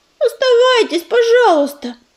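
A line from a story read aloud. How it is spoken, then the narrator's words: Pleading. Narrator (Russian): взмолилась тростинка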